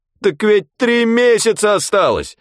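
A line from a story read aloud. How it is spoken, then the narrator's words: Almost shouting. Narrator (Russian): почти закричал участковый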